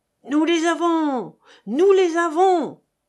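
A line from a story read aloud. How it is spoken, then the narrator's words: Crowd howling. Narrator (French): hurlaient les artoupans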